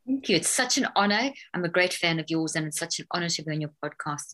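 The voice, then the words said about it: Mixed South African accent. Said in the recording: “you've got such an interesting accent ... I don't know what my accent is anymore. It's like a whole mixture ... It's that South African accent ... It's that South African twang”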